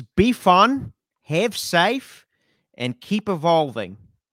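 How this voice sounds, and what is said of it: Impression of Jim Jeffries. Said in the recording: “what's your best impression? ... Okay, let me do it as, I'll do Jim Jeffries.”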